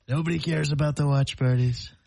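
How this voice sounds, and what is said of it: Imitates another person's voice. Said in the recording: “you do a Trump impersonation? ... It's pretty good.”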